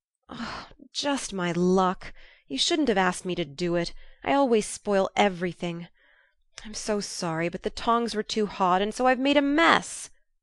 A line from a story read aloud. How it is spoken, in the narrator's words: groaned poor Jo, regarding the little black pancakes with tears of regret